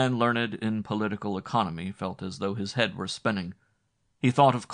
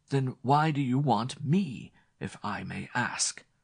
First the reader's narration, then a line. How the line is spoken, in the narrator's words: he faltered